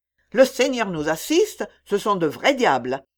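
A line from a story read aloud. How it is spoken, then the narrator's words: Exclaimed. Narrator (French): s'écria Marx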